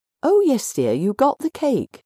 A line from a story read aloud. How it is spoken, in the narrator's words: said brightly